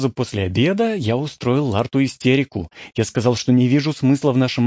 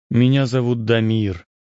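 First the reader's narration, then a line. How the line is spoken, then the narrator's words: Gloomy. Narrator (Russian): сказал я мрачно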